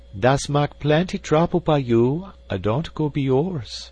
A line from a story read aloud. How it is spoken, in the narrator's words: sighed the widow, indeed regretting her admirer was not an ordinary man